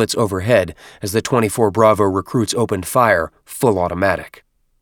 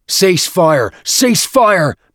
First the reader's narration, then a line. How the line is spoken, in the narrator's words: Byrne shouted